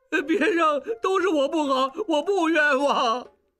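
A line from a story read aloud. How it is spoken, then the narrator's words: Crying. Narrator (Chinese): 小栓哭道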